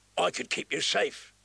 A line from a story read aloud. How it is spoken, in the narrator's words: he rasped